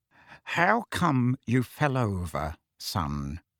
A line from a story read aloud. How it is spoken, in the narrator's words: said Uncle Vernon, in an unnaturally quiet voice, the kind of voice he would adopt at the bedside of a very ill person